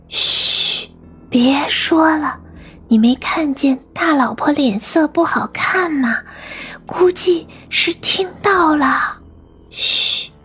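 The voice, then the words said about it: Hushed whispering gossip. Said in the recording (Chinese): “小声的议论着”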